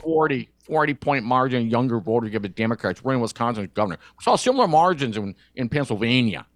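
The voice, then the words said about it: Nasal, monotone Scott Walker impression. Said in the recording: “do the Scott Walker voice, you could please either be very nasally ... much more monotone.”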